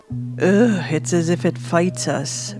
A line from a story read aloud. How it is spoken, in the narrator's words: Roe growled, as he chewed on some of the dried meat